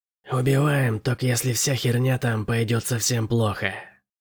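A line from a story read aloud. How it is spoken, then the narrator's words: Hissed. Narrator (Russian): прошипела Генри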